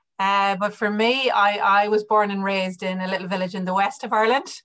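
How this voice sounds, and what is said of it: Irish accent. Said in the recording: “hopefully from the accent that I'm Irish”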